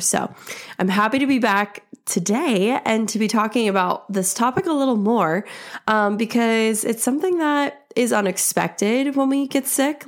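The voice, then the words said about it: Voice still sounds ill. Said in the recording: “as you can still hear in my voice, I am still recovering”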